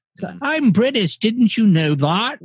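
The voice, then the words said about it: Bad cartoonish fake British accent. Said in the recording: “horrifying accent that I'm slowly going to move to Australian and then maybe into South Africa ... my fun accent ... it goes so many places ... my cartoon accent ... this shitty one”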